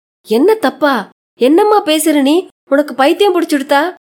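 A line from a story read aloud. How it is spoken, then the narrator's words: Shouting. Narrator (Tamil): என்று கத்தினார் கணேசையர்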